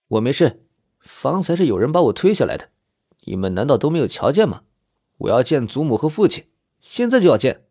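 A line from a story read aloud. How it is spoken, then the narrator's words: Cold. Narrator (Chinese): 冷声道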